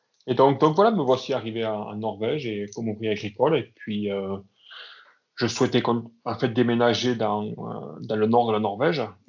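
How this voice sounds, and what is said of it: Southwestern French Aveyron accent. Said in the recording (French): “Moi, je viens du sud-ouest, donc du département de l'Aveyron. D'où ce, ... bel accent ... Oui, je, je l'ai effectivement tout conservé.”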